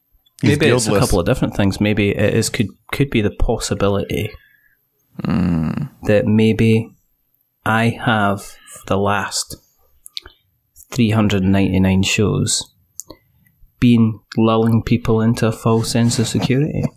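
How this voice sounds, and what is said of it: Smooth, calm voice with an accent. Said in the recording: “Your smooth, calm voice, that accent that you have ... it's borderline intoxicating”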